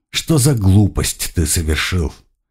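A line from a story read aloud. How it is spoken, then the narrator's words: Sighed. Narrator (Russian): вздохнул Блюм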